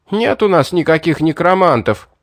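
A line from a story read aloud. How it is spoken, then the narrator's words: Shrieked. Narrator (Russian): взвизгнул кто-то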